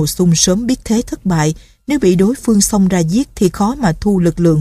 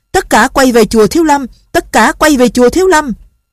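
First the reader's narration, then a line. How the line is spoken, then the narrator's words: Powerful shout over crowd. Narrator (Vietnamese): Nội lực của chàng mạnh mẽ nên tiếng la giữa mấy ngàn người đang hò hét mà khắp nơi vẫn nghe được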